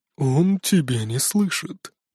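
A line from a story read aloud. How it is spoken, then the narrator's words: Sleepy yawning answer. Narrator (Russian): сонно зевнув, ответил Адди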